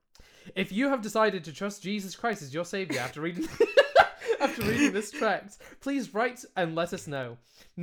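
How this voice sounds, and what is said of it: British accent. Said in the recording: “I am British. This accent is a British accent.”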